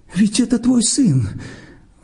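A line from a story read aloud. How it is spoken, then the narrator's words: Trembling exclamation. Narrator (Russian): воскликнула дрожащим голосом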